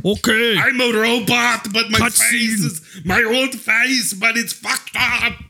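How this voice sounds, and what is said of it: Put-on Austrian accent. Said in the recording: “I sound like Dracula vomiting. I don't know what that voice is. ... That is an Austrian accent, isn't it? Just Dracula vomiting.”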